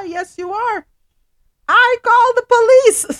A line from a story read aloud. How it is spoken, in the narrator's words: Sims yells